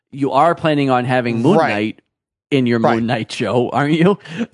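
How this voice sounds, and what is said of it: Imitates another person's voice. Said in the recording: “I'll say this in my Jeff Goldblum voice”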